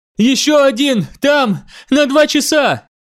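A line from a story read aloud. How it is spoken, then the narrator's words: Shouting. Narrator (Russian): прокричала она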